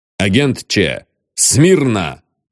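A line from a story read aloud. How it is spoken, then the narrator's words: Stern command. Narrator (Russian): строго скомандовал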